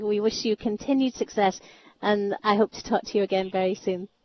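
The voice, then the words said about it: Scottish accent. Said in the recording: “Love hearing that Scottish accent”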